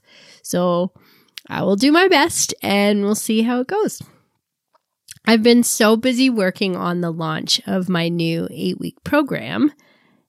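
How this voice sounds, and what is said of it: Rough, hoarse voice. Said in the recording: “excuse my voice this week as I have been so sick... my voice is a bit rough”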